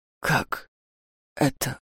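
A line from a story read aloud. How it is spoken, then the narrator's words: Shocked whisper. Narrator (Russian): в шоке прошептал Даур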